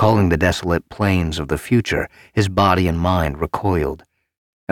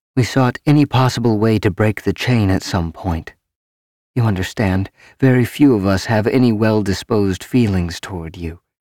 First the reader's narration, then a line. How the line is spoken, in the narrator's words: she said calmly